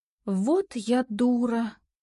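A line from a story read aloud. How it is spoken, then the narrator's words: Quiet drawl. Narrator (Russian): тихо протянула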